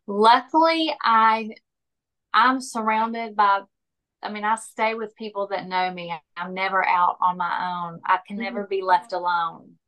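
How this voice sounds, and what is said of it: Speaks with a noticeable accent. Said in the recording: “as if you can tell by my accent”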